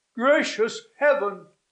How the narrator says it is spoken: cried the holy man, starting

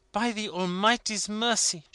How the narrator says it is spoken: she exclaimed

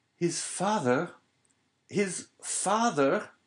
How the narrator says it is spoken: Starting up, he clasped his hands around his head as though to prevent his very brain from bursting, and exclaimed

